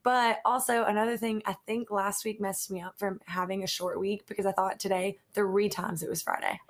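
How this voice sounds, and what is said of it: Groggy, strained voice. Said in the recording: “hear it in my voice, like... I'm like straining to even get to like a normal voice because my voice is like very groggy... And it's like going in and out.”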